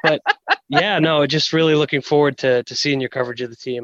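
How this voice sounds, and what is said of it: New England accent. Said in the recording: “New England accent”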